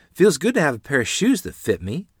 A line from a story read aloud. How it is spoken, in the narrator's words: Lottie said, gazing happily at them